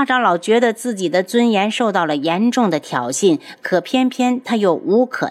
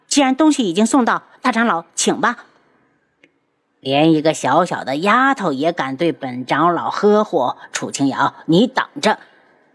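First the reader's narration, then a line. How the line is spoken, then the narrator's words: Cold. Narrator (Chinese): 青衣冷声道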